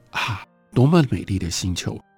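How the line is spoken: Admiring exclamation. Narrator (Chinese): 他会忍不住发出赞叹说

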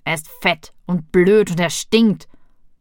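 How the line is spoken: Growling. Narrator (German): knurrte

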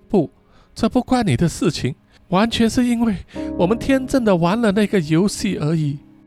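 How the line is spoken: Tearful speech. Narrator (Chinese): 阿友哭着说

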